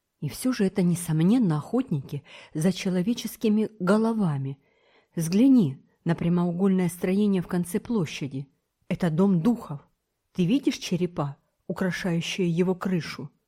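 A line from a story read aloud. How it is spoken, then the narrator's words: Sudden frightened whisper. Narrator (Russian): Вдруг он побледнел ... шепнул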